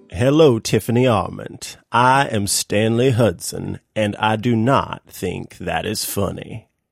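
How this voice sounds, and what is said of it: Slow Southern gentleman impression of Stanley Hudson. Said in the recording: “I'm like a Savannah gentleman, and Stanley's not a Savannah gentleman. He just has kind of a deep voice and talks pretty slow. ... It's like molasses dripping out of your mouth.”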